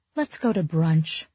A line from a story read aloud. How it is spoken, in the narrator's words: I sighed